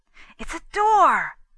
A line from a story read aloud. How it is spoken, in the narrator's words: exclaimed Stanton